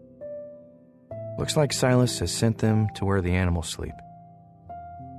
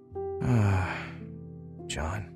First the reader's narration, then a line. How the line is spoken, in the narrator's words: his father sighed